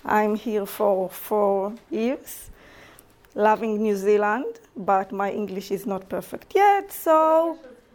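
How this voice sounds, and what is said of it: Israeli accent in English. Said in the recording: “I'm from Israel, as you can hear in my accent... I might have, mistakes in my pronunciations”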